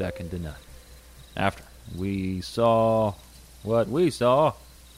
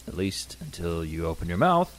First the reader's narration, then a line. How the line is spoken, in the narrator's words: Cash said with a subdued laugh